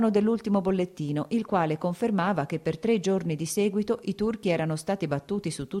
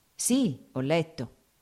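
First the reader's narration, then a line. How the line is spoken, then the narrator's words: Plain. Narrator (Italian): rispose Sergei Ivanovich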